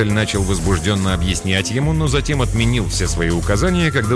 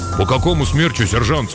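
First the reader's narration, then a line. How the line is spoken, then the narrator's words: Plain. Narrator (Russian): спросил наводчик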